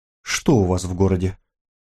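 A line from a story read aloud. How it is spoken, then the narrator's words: Quiet, very firm. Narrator (Russian): Нина говорила тихо, но очень твердо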